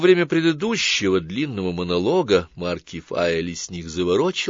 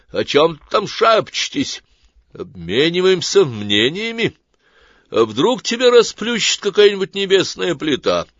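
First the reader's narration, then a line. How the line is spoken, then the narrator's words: Said loudly. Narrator (Russian): громко сказал Сварог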